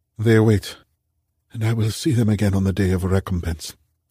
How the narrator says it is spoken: Karim whispered

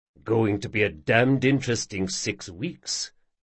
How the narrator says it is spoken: muttered Justin

